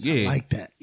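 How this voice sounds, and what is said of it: Imitates another person's voice. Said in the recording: “my DJ Khaled voice”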